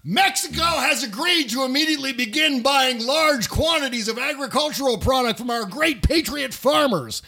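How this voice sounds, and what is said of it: Yelling, shouted delivery. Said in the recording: “It was in all caps, so that's why I'm yelling.”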